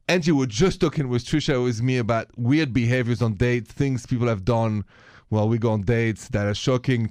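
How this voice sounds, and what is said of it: French accent. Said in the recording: “The accent is French, just in case you haven't noticed.”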